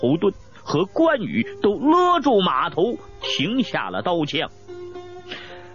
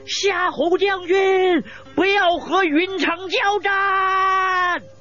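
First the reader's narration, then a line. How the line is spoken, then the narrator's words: Loud shout. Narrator (Chinese): 一个人骑着马飞奔而来，大声叫道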